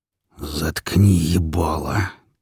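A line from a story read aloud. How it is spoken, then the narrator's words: Low growl. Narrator (Russian): тихо прорычал волк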